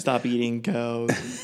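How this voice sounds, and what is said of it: Imitates another person's voice. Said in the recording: “your Joaquin Phoenix impression”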